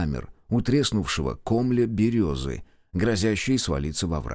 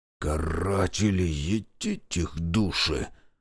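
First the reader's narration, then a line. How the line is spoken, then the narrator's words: Whisper near the ear. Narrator (Russian): шепнул над ухом Шестаков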